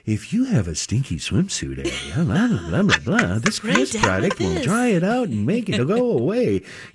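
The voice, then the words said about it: Commercial announcer voice. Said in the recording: “it's like your announcer voice”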